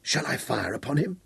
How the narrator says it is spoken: Hal whispered to Abeli

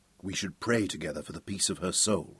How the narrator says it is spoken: said Sir Francis quietly

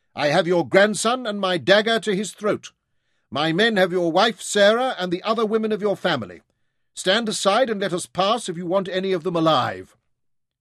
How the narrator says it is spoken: Guy shouted back

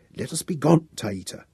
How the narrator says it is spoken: My mistress whispered imperatively

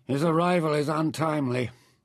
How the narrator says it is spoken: Nefer said grimly

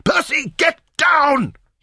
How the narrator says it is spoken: screamed

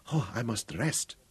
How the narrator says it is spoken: panted

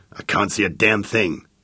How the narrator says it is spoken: muttered Jake

